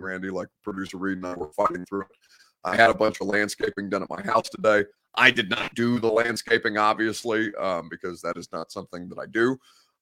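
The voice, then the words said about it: Congested, deeper than usual voice. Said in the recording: “horrific allergies. So I'm snotty a little bit tonight, which is why my voice sounds deeper than usual.”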